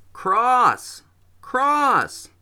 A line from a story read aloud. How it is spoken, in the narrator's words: yelled